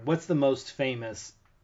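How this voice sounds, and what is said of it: Briefly British-sounding accent. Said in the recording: “I sound British there.”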